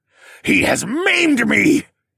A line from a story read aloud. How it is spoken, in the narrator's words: he wailed